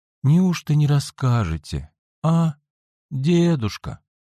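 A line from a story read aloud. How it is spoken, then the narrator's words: Sleepy voice. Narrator (Russian): Сонным голосом проговорил он в конце концов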